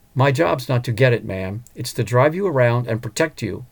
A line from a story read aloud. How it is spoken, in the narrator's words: Carl explained calmly